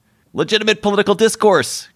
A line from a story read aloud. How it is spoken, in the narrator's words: cried the school bully